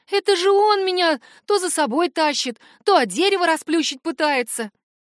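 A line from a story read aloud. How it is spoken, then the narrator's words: Sobbing like hurt child. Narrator (Russian): Словно обиженный ребенок, она всхлипнула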